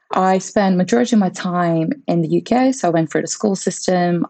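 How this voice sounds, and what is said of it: British-sounding accent. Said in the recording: “As you could probably tell by my accent as well.”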